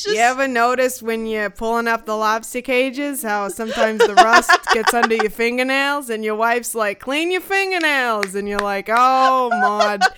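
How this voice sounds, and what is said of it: Put-on Maine accent, well done. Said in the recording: “You've got the accent. Well done.”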